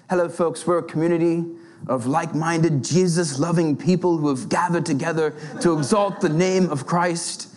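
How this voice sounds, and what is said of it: Put-on English accent. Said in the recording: “there's this English accent in my head”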